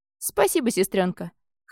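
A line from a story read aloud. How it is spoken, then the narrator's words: Snorting dragon. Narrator (Russian): хмыкнул дракон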